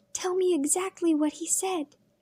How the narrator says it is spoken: Leah would whisper

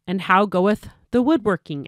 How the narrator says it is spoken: asked the friar

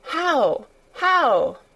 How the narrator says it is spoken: cried Mary, forgetting to be careful

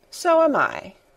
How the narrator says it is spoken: said Colin calmly, but not without an air of some satisfaction

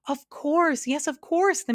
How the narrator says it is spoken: the man shouted

